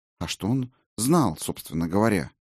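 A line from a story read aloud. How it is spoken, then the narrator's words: Sudden quiet question. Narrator (Russian): вдруг тихонько спросила Сигерлин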